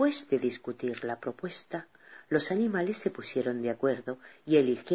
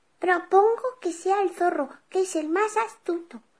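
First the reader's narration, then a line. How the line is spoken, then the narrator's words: Beetle shouting. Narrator (Spanish): el escarabajo gritó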